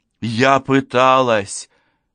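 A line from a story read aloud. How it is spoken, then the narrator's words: Exclaimed. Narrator (Russian): воскликнула я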